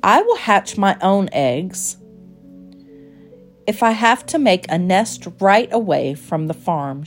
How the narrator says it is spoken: she said

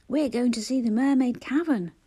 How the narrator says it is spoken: Ned piped up

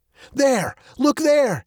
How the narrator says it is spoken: shouted

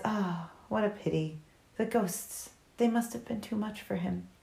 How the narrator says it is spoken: sighs

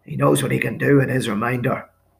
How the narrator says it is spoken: whispered Roisin angrily

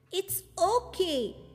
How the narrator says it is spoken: Eenie shouted

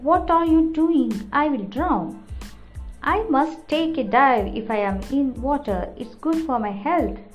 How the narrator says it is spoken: The jackal cried

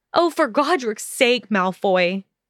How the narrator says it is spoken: Hermione shouted

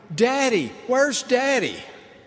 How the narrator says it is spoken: shouting

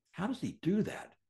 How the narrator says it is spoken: Michael whispered to Jim

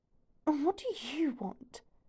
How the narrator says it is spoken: she hisses

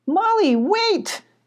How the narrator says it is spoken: cried Abby, running after Molly

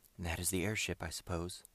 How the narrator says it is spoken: Bob whispered to Loomp

